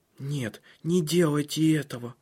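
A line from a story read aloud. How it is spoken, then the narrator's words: Whisper. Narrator (Russian): прошептал Силия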